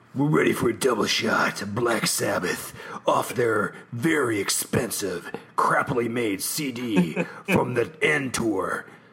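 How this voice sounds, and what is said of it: Radio announcer voice. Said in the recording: “You do the radio voice now.”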